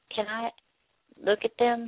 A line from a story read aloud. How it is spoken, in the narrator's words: she asked quietly